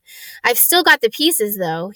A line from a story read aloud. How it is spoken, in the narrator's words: added brightly